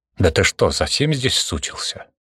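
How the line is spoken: Unrestrained outburst. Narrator (Russian): Не сдержался Константин

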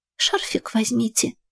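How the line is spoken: Deflated whisper. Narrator (Russian): произнесла шепотом, растеряв большую часть своего запала

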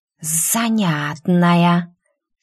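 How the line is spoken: Quiet hiss. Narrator (Russian): Тихо прошипела Куракава

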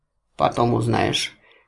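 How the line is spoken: Flippant, dismissive. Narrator (Russian): легкомысленно отмахнулся Гвори

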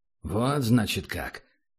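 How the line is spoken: Thoughtful. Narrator (Russian): задумчиво отозвался тот

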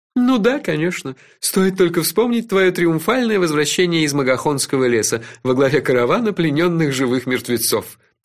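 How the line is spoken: Laughing. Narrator (Russian): рассмеялся Кофа

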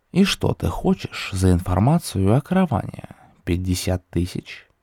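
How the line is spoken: Calm speech. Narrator (Russian): также спокойно произнес Люд

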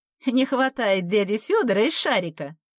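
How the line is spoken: Laughing. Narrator (Russian): засмеялась Ирка

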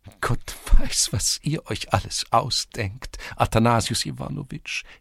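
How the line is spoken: Giggling. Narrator (German): kicherte Tschivria

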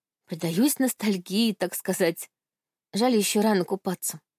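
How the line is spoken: Sighing. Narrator (Russian): вздохнула я

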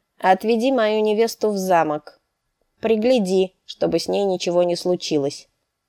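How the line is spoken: Curt, clipped. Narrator (Russian): отрывисто проговорил принц

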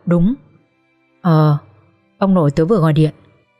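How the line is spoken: Trembling voice. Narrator (Vietnamese): My trả lời với chất giọng run run

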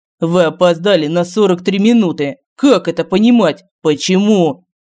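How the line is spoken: Roaring. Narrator (Russian): Семен упреждающе взревел

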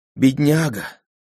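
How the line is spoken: Sighing. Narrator (Russian): вздохнула Деви Айо

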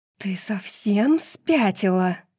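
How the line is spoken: Hissed. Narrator (Russian): прошипела Неста

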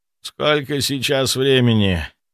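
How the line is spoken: Hoarse sleepy question. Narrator (Russian): Хриплым после сна голосом спросил я

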